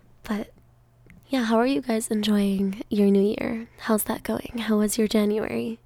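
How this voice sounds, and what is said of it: Deeper, allergy-affected voice. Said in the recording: “I do not like the way my voice sounds today ... because of my allergies, my voice has been a little different and a little deeper”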